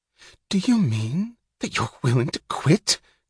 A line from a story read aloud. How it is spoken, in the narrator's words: gasped Mouch